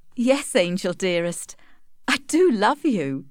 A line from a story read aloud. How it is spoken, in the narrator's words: laughed Tess